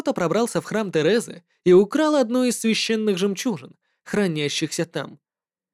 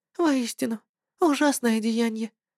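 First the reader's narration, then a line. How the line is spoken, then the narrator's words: Sad nun. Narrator (Russian): сказала монахиня грустным голосом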